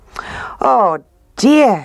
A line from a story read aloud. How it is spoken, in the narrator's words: cried